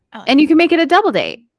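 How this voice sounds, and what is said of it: Slight valley girl accent. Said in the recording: “had a little accent with that? Like a little valley girl.”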